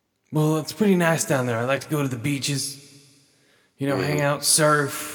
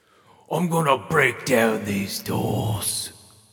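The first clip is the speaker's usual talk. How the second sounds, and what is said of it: Imitates another person's voice. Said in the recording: “I keep picking up different people's accents, sort of like a mimic ... I just got a Idris Elba sick, mate. So right now, it's Idris Elba as the virus.”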